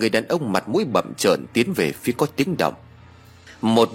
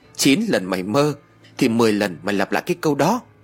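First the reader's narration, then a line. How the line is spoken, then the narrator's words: Woman bursting laughing. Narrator (Vietnamese): Một cô gái cười phá lên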